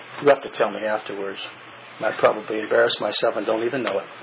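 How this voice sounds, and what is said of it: Southern American accent. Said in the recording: “Southern accent, you got.”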